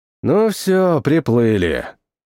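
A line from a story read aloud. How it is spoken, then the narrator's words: Muttered. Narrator (Russian): пробормотал я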